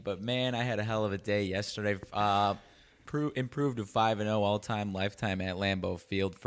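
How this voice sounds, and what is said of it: Slightly scratchy voice. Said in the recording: “my voice may not be quite thawed out yet. It is still a little scratchy”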